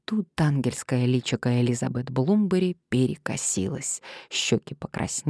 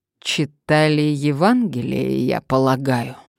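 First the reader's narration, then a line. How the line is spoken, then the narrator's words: Breathless, through teeth. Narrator (Russian): процедил Томас, с трудом восстановив дыхание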